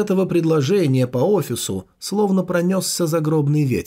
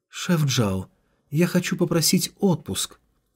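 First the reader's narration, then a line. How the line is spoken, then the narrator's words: Unearthly even female voice. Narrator (Russian): произнесла девушка особенным, неземным, но ровным голосом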